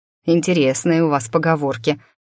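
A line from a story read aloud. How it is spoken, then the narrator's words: Amused snort. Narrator (Russian): хмыкнул Дмитрий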